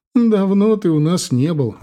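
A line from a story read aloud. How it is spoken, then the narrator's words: Laughing. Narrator (Russian): рассмеялась бабушка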